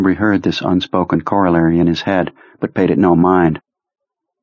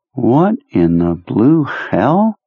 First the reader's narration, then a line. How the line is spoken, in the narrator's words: Udall asked in a musing voice